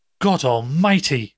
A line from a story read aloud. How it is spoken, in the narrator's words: he cried